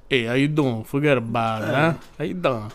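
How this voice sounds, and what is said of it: Put-on New York accent. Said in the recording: “when people do the New York accent that aren't from New York”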